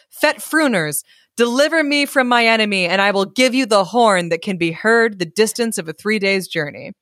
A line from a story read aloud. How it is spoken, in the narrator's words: one of the combatants called out